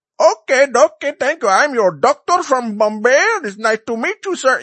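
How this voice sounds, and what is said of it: Put-on Indian accent. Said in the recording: “you would do the Indian accent”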